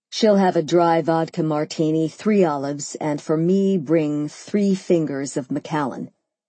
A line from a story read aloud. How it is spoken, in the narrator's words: he answered